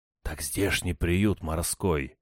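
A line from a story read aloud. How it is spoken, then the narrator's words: Whisper in ear. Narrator (Russian): зашептал я ему на ухо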